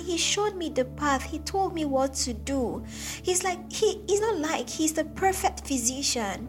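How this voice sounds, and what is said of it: Raised, impassioned voice. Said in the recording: “Am I raising my voice? ... I can't say it with any other tone.”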